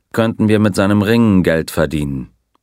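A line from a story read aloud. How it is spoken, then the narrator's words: Dry remark. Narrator (German): bemerkte der Colonel trocken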